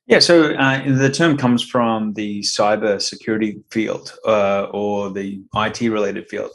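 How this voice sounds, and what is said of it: Australian accent. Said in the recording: “I noticed the accent there ... Originally from Brisbane, Queensland. So down under.”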